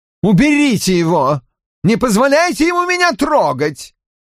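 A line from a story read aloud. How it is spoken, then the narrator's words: Panicked scream. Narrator (Russian): завопил Людовик X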